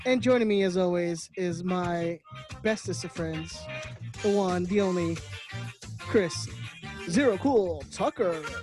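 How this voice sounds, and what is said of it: Exaggerated announcer voice. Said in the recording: “I tried to do my best announcer voice.”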